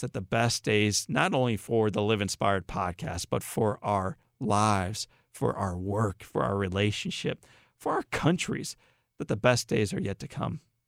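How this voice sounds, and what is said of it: Hoarse voice. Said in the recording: “as I go hoarse after talking with you for 40 minutes”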